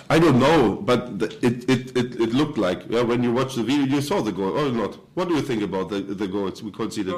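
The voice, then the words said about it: German accent. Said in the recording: “He's German. You can tell by the accent.”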